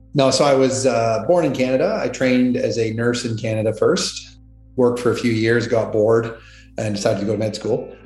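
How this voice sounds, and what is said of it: Canadian English accent. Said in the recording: “as you can tell, I'm Canadian. I have an accent in this country, at least.”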